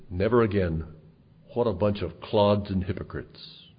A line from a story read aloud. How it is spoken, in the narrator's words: he muttered to himself